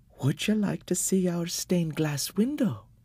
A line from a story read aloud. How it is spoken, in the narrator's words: the demoness asked gently